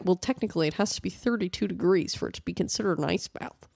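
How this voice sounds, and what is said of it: Mocking impression of a know-it-all. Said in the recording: “That's my impression of some idiot on the internet.”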